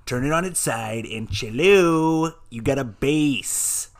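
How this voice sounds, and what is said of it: Jack Black impression. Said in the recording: “That sounded nothing like Jack Black.”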